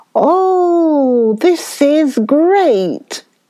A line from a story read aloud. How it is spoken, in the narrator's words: cried Uncle Wiggily